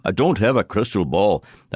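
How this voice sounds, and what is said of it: Attempted Scottish accent. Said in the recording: “I'll try to do it in your accent, I probably will fail miserably ... That was Scottish ... That sounded more like William Wallace or something.”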